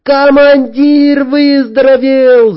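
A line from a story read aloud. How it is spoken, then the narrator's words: Excited yell. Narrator (Russian): заорала Наташка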